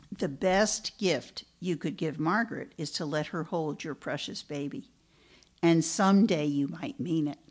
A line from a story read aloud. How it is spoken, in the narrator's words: Myra paused, then answered slowly